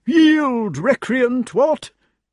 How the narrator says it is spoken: cried King Pellinore

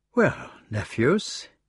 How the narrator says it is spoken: he said evenly

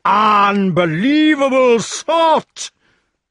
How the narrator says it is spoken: screamed the master of the castle

